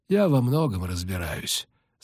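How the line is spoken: Calm, unboastful vampire. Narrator (Russian): спокойно сказал вампир без всякого зазнайства

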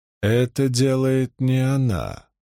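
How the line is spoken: Even, level voice. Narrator (Russian): ровным голосом произнес он

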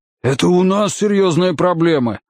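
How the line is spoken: Exclaiming. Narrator (Russian): воскликнул Уилл

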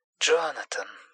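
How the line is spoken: Whispering. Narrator (Russian): шептала она

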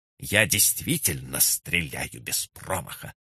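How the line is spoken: Through gritted teeth. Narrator (Russian): процедила она

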